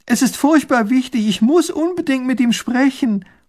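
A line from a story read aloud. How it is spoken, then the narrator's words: Calling after a carriage. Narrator (German): ruft hinter der Kutsche her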